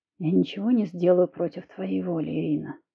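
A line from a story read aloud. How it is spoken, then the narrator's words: Quiet intimate murmur. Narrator (Russian): тихо сказал Кирилл мне в губы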